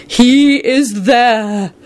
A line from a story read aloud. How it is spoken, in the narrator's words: Sybil replied in an ethereal voice